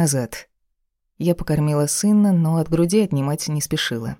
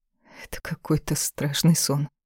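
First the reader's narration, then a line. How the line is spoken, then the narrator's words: Weary murmur. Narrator (Russian): пробормотала, прикрывая глаза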